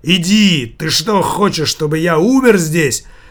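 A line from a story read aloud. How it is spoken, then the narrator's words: Loud shout. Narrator (Russian): Громко закричал Савиньи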